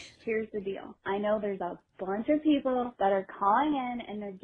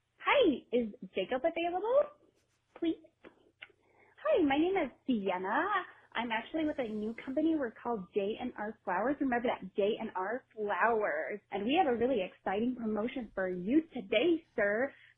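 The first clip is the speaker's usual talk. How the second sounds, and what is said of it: Imitates another person's voice. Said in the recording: “my best Kyle impression. ... me doing Kyle on War of the Roses”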